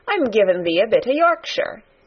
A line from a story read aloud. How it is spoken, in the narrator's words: answered Mary triumphantly